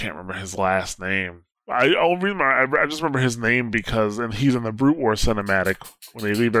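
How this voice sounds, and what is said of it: Usual voice. Nothing is said of it.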